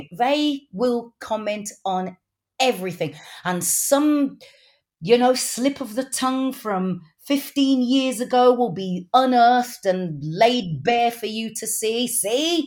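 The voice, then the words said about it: Wolverhampton English accent. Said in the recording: “my Wolverhampton accent”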